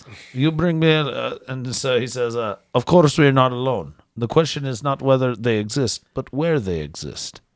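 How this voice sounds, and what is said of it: Reading in a put-on accent. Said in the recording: “So you just made it so more interesting. Just by the accent”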